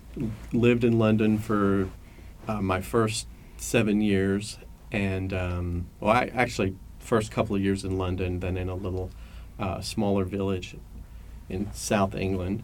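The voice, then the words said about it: English accent. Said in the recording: “you can tell by my accent, I'm originally from London, England.”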